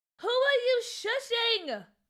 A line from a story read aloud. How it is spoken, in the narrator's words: Cookie yelled